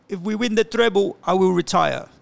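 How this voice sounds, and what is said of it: Bad imitation of another person's accent. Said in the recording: “That's a very bad Pep accent.”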